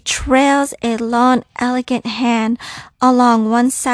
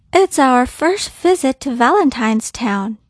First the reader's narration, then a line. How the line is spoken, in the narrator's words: Jack replies cheerfully, shoulders back, undaunted by this woman's regal demeanor